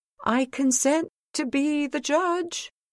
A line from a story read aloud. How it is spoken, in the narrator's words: the shepherd inside called out